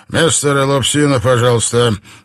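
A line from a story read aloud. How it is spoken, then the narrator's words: Hurried. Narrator (Russian): торопливо произнес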